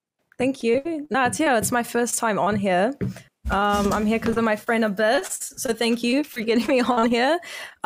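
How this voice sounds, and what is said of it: New Zealand accent. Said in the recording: “I'm from New Zealand ... I hope my accent is understandable, because a lot of times people make me repeat stuff.”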